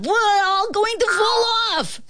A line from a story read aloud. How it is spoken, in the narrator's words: screamed the ant